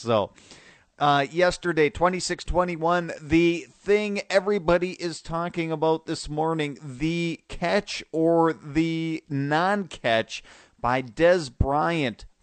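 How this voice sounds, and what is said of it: Strained, worn-out speaking voice. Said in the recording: “as you might be able to tell from my voice. ... It's probably don't have the best speaking voice today”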